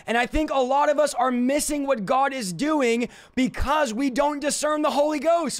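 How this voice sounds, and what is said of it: Passionate shouting. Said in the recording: “why are you shouting? Because I'm passionate”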